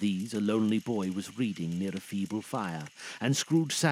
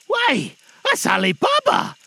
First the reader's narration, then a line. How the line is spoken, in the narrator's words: Scrooge exclaimed in ecstasy